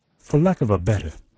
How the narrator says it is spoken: laughed, good-humoredly contemptuous

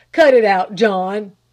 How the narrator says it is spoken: he thundered

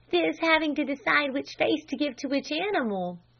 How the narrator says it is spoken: she giggled

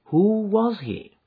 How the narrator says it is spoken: asked Holmes

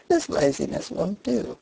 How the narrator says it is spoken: says he merrily

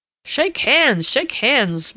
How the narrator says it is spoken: boomed Uncle Aubrey from across the table

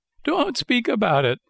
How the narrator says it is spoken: wailed Pinocchio, still trembling with fright

